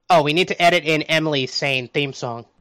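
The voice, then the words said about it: Nasal cartoon-character voice impression. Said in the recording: “You're still doing the Peter Griffin voice ... It's not a good voice, is it? ... Very much not ... I just try to sound more nasally, and it's not that good.”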